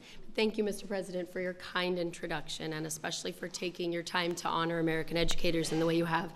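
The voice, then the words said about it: Croaky, hoarse voice. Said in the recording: “I have a little bit of laryngitis this morning, so please forgive my croaky voice.”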